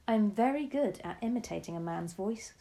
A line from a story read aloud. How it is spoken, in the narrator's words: she said